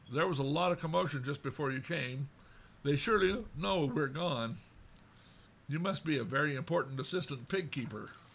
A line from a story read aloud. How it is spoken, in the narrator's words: said Iolanwy with a small laugh